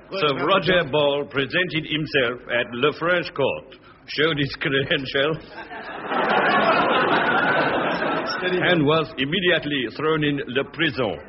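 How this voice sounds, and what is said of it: Put-on French accent. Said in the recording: “French accent.”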